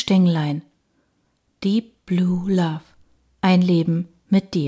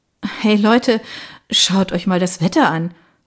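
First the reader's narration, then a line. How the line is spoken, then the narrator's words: Remark. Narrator (German): bemerkte ich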